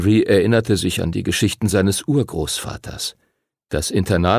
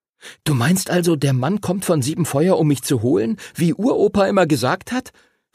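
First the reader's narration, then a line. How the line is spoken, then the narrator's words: Excited question. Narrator (German): fragte Henry aufgeregt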